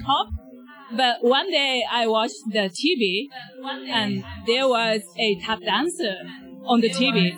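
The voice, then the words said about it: Japanese accent. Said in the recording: “from your accent and from what you said, you're from Japan?”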